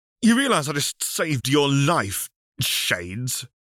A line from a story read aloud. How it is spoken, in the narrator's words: The birdman scoffed